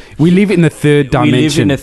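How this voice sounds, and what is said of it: Put-on South African accent. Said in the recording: “in his accent. You have to do the accent. ... Sorry to all our South African listeners.”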